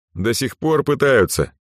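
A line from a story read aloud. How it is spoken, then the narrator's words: Snorting. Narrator (Russian): фыркнул Кристоф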